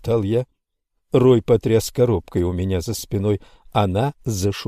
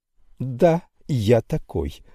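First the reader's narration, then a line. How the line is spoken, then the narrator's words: Joyful reply. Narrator (Russian): радостно ответил он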